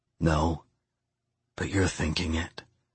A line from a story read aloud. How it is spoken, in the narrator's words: I whispered